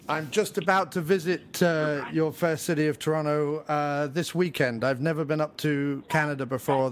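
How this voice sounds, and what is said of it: English accent from south of London. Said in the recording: “obviously you can tell from my accent I'm from England originally, just south of London I grew up”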